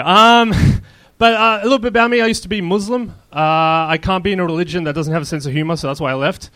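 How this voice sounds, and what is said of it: Mixed Australian and Arab accent. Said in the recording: “If you're wondering what's my accent, like I said, I'm from Australia, but I was born in Israel and I'm an Arab.”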